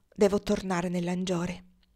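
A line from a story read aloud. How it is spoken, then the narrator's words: Choked voice. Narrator (Italian): Alex prima di dire con voce strozzata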